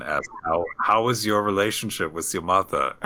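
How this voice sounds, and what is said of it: Put-on German accent. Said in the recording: “put on my glasses, and a German accent.”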